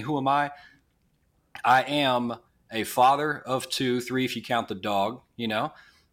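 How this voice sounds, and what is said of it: Slight Southern twang. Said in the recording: “I live in Nashville, Tennessee. You probably hear some twang, so I got a little bit of that going on”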